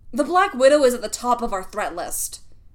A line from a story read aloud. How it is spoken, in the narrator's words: Fury snapped